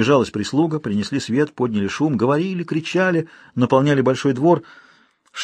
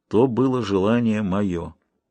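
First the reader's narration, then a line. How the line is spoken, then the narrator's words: Old man's gloomy, muffled voice. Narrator (Russian): Лицо старика омрачилось, и глухо прозвучал его голос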